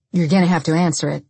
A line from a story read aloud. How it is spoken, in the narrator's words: Dennis said, quickly